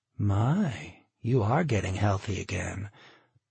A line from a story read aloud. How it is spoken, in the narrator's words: she said softly, still smiling